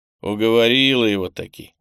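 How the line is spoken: Grimacing. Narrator (Russian): скривился

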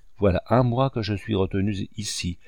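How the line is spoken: Plain. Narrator (French): dit-il à Marthe

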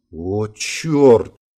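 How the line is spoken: Stunned mutter. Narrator (Russian): ошалело пробормотал Гельмут

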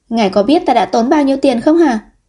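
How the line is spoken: Angry woman. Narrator (Vietnamese): nàng vẫn không nhịn được giận dữ nói

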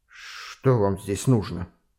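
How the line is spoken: Strained, forced words. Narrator (Russian): с усилием выдавил из себя майор

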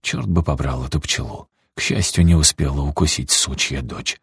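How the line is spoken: Old man muttering. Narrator (Russian): пробормотал дедушка

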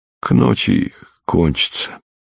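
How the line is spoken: Quiet. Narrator (Russian): тихо сказал ей фельдшер

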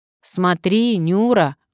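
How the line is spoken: Loud old man. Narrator (Russian): громко заговорил старик

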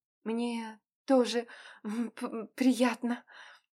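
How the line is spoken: Stammering she-wolf. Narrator (Russian): заикаясь, произнесла волчица

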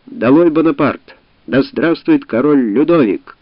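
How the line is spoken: Ringing young man's shout. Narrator (Russian): крикнул звучным голосом молодой роялист

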